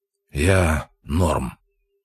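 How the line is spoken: Tired rasp. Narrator (Russian): устало прохрипел

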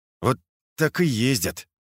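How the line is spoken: Through gritted teeth. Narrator (Russian): процедил сквозь зубы Лосенок

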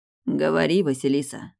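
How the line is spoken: Hoarse. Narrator (Russian): произносит хрипло

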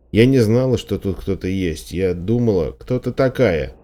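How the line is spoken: Irritated question. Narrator (Russian): раздраженно спросил мужчина

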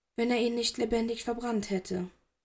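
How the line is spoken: Quiet speech. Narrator (German): sagte leise

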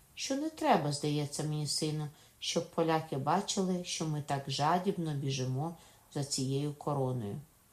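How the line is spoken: Very gentle. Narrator (Ukrainian): додала дуже лагідно Катерина

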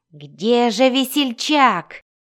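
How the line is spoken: Exasperated exclamation. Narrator (Russian): В сердцах воскликнул Кессел

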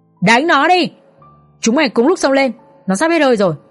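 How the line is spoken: Loud yell. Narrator (Vietnamese): Tên mặt sẹo hét lớn

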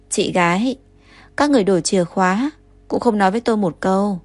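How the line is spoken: Choked voice. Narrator (Vietnamese): Ngô Trà, thành âm mang theo nghẹn ngào

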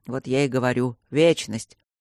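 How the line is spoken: Good-natured grumble. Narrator (Russian): уже благодушнее пробурчал Кембридж

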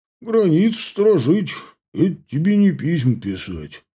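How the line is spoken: Sighing. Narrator (Russian): вздохнул он

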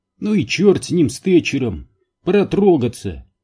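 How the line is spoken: Exclaiming. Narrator (Russian): воскликнул Энди

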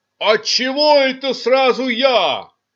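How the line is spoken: Yelling. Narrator (Russian): завопил он

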